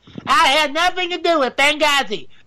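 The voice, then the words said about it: Poor Hillary Clinton impression. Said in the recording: “Oop, wrong accent. I can't do Hillary Clinton.”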